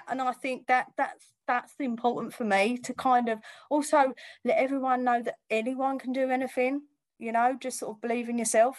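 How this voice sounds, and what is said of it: Essex accent. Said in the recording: “Essex accent”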